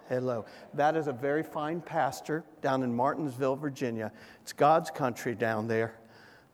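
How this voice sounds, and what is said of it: Southern American accent. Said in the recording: “I'm talking a little Southern ... I do speak Southern.”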